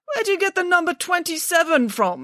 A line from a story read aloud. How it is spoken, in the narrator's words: spluttered Mr